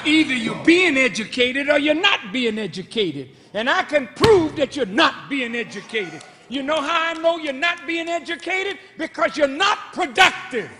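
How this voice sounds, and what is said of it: Raised, loud voice. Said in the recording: “excuse me for raising my voice.”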